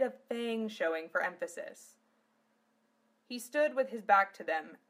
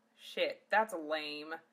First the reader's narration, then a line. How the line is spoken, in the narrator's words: Zell grumbled